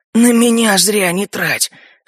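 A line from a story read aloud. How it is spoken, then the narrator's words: Hoarse objection. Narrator (Russian): хрипло возразил Илун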